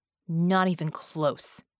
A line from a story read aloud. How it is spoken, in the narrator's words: Vicky growled